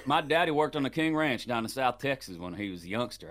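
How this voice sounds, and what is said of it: Put-on Southern Texas accent. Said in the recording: “you did a really good Southern accent ... Texas accent ... Ooh, nailed it.”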